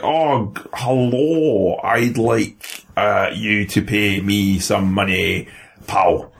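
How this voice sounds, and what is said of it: Bad put-on Scottish accent. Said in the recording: “the worst Scottish accent I've ever heard in my life”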